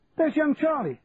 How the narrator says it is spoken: shouted a voice

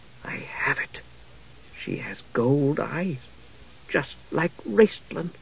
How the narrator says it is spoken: she heard the Kendath murmur in awed tones

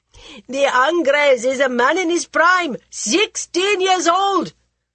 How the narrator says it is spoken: the eunuchs shouted after the Purda ladies

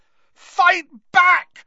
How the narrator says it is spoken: Harry screamed at him

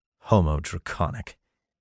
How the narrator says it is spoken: he muttered to himself

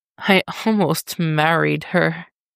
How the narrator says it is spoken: Dick chuckles weakly

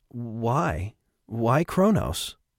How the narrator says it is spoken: O'Shea asked, his voice quivering

